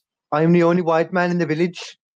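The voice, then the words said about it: Put-on Welsh accent. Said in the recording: “Is that a Welsh accent or? ... It was supposed to be Jesus. ... But it's Welsh.”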